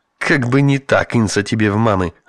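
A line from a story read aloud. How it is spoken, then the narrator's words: Officer snapping back. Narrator (Russian): огрызнулся офицер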